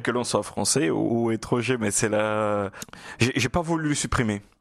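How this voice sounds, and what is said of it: Lilting Brazilian Portuguese accent. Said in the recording (French): “cet accent chaloupé ... c'est votre brésilien natal, votre portugais natal ... mon portugais du nord-est du Brésil”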